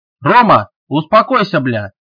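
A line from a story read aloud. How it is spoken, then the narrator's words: Shouting. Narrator (Russian): закричал он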